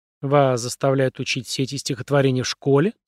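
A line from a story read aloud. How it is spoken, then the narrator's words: Plain. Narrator (Russian): спросила Карен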